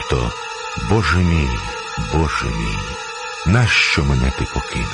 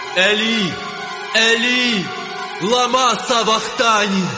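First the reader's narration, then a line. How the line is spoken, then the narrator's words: Loud cry. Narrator (Ukrainian): скрикнув Ісус гучним голосом, кажучи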